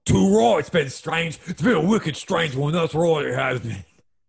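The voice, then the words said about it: Put-on Cockney English accent. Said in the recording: “picking up the Cockney slang. That's right, Cockney, one of my five English accents”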